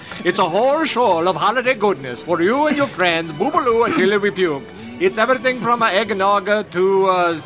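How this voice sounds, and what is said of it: Put-on accent drifting Irish to Italian. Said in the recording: “doing an accent ... I'm not even sure what that was. It went from Irish to Italian.”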